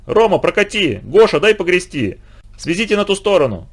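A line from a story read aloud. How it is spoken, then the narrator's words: Boys shouting. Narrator (Russian): Мальчишки кричали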